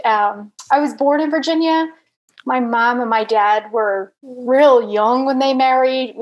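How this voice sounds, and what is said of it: American accent. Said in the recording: “I'm obviously American, you can tell from my accent.”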